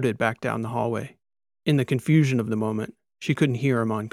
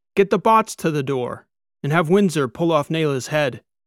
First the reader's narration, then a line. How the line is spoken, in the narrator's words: Kikoa shouted to his niece